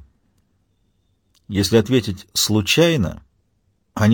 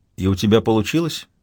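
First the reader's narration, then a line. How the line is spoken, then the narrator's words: Calm question. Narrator (Russian): спокойно спрашивает Цезарь Третий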